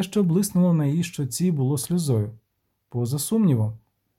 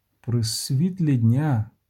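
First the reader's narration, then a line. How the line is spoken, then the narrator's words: Moaned. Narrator (Ukrainian): простогнав він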